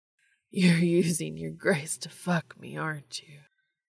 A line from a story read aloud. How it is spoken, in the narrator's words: Dean moaned